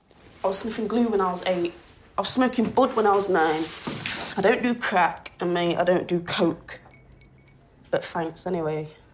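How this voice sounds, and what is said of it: Nottingham English accent. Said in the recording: “Where's that accent from? ... Nottingham.”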